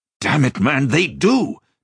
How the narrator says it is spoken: Joshua snapped back, his voice rising almost to a shout

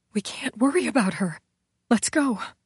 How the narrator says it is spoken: she whispered

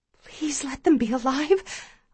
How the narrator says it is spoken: I whisper

